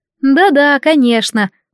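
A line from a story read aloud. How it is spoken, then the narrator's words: Knowing giggling reply. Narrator (Russian): многозначительно покивала подруга, хихикая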